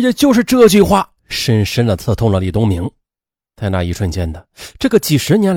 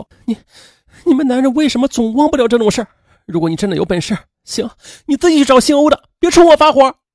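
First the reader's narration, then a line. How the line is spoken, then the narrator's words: Crying. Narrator (Chinese): 王月 便哭泣着说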